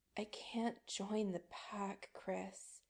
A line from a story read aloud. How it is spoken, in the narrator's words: Adam murmurs